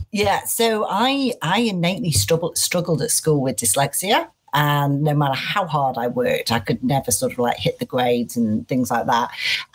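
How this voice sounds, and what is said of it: Manchester English accent. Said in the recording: “Manchester is home. People will be able to hear that in your accent”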